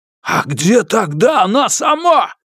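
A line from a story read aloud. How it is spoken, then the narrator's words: Roaring. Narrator (Russian): Снова взревел Юань Сяофэн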